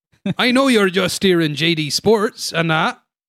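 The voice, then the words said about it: Poor attempt at a regional accent. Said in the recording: “that's not the right accent, but okay. Sorry, I'm not good at I'm not good at accents.”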